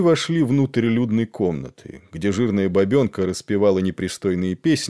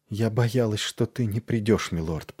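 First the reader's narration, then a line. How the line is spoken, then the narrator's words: Whisper. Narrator (Russian): прошептала она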